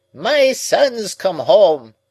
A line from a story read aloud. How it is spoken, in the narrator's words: The old man cried with great triumph